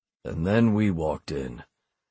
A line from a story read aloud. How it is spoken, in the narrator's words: Frost said with a low groan